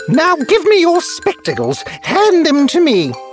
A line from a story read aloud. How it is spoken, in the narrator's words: said Wendy, who gave a loud cackle